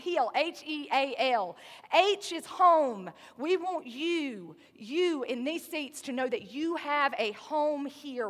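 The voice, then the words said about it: Southern American accent. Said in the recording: “My southern accent makes it sound like we're going straight uphill”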